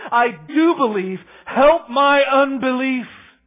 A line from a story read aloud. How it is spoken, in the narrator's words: the boy's father cried out and began saying